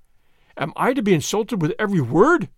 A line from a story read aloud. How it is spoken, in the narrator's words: he cried